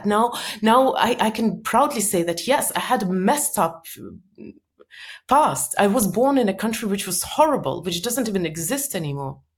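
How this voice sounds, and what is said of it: Strong Soviet-born foreign accent. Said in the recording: “I came from Soviet Union. I've got so much criticism for my bizarre accent... my accent is so confusing”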